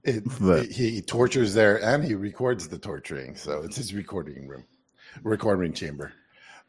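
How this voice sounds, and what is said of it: Sick-sounding voice. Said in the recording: “I've still been sick, guys. I'm trying to get over it. You can hear it in my voice. But bronchitis is a motherfucker.”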